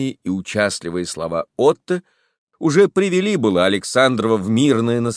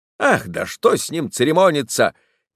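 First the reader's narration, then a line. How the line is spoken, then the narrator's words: Impatient exclamation. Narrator (Russian): нетерпеливо воскликнул Михин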